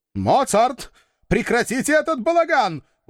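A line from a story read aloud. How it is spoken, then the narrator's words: Howled, changed tone, father. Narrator (Russian): Уже другим тоном взвыл папочка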